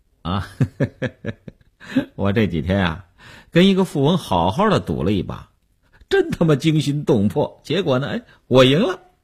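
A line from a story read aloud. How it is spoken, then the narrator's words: Laughing. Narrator (Chinese): 刘文庆笑笑说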